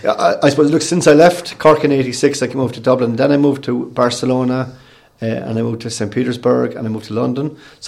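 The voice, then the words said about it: Cork Irish accent. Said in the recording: “I haven't lost the Cork accent yet”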